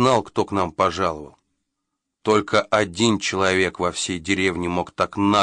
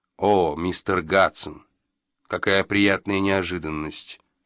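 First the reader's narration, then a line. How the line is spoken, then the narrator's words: Calm speech. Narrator (Russian): спокойно сказал Джо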